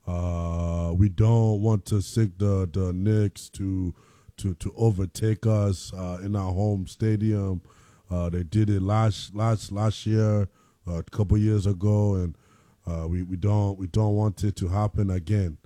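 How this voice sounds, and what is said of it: Imitates another person's voice. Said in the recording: “I have a hell of a Joel Embiid accent. ... you've been practicing on that”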